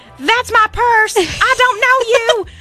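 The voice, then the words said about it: Imitates a cartoon character's voice. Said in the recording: “that was a pretty good voice impression”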